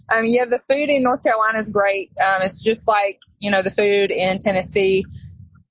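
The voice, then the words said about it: Southern US accent. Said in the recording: “you sound like you have an accent too ... I'm from Tennessee, so I definitely have that Southern accent.”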